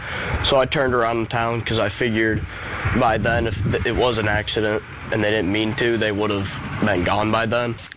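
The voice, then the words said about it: Mature-sounding young man, slight regional accent. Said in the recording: “He sounds so mature ... Why does he sound like that? ... There's a little bit of accent in Illinois, especially bit southern Illinois.”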